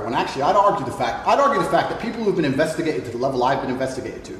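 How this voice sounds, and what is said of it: Muddled British-American accent. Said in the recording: “He is a little bit, there's a little tinge of it there. ... he has kind of a weird muddled in-betweener accent. It's not quite British and it's not quite American. It's a weird meld of the two.”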